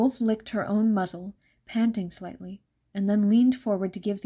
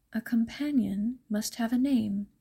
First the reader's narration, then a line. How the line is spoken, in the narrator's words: Scarlet's grandmother advised her in a quiet voice